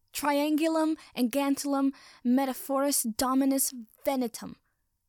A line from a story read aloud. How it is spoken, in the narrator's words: yells